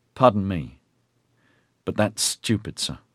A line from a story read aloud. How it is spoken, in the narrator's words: he said sullenly